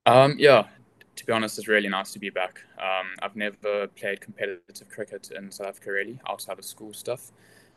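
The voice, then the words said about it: South African accent. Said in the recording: “There's obviously no hiding your roots with the accent ... Is it nice to be back in South Africa”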